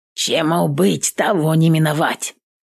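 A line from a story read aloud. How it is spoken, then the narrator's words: Hoarse. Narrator (Russian): хрипнул Пугас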